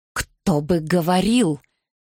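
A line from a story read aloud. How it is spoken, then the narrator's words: Hissed. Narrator (Russian): прошипел Гардинер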